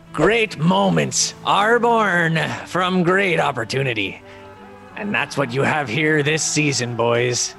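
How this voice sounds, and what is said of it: Put-on pirate dialect. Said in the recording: “I need you to do it in a pirate dialect... the pirate dialect... I'm going to try to do it in his cadence too.”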